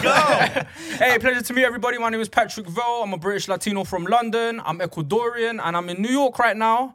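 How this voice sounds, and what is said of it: English accent. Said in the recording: “I've never heard Ecuadorian said in an English accent ... we're not used to, hearing the English accent.”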